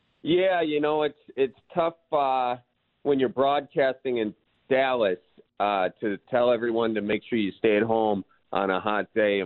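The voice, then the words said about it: Midwestern American accent. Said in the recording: “your Midwest accent”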